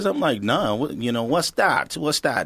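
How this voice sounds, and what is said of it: Poor imitation of own former accent. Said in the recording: “That was a bad version of your accent.”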